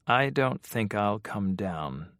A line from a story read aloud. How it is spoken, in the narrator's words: said Zena calmly